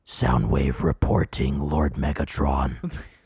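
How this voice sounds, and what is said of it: Robotic Soundwave character voice. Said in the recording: “Can you do that Soundwave thing again?... It's pretty good... it actually sounds so good”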